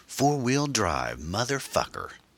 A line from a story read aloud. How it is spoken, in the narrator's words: exclaimed